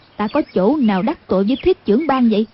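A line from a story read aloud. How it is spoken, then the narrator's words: Cold. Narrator (Vietnamese): Anh cô lạnh lùng nói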